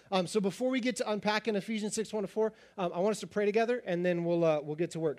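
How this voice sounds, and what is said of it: Raspy voice, speaking fast. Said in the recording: “I'm probably going to speak faster than normal, which is already at a pretty rapid pace... my voice is a little raspy”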